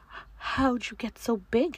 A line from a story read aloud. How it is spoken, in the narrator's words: I gasped